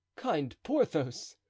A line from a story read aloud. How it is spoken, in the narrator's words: cried D'Artagnan